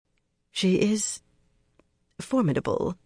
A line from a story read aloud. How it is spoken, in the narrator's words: Verin murmured